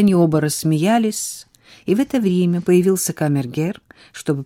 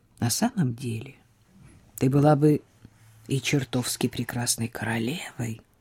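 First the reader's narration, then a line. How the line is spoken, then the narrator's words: Quiet. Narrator (Russian): тихо сказал он ей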